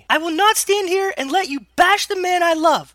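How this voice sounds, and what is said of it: Yelling. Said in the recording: “I yelled”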